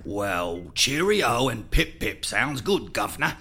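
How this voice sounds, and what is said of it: Put-on British accent. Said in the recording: “you speak with a British accent from now on.”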